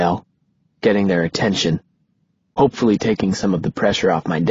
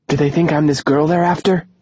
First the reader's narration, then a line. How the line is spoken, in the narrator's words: Sarah asks, breathlessly